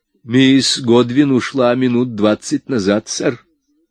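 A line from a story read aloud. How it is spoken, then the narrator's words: Plain. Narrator (Russian): сказал он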